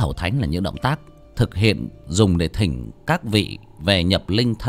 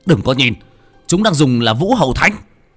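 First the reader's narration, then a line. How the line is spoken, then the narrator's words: Shouting. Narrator (Vietnamese): Một trong sáu tên hét lên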